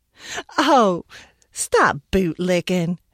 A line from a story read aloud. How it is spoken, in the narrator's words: she laughed